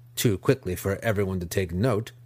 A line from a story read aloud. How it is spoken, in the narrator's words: Nalfane said